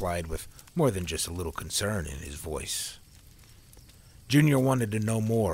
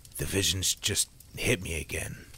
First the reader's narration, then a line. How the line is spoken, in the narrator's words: Sam muttered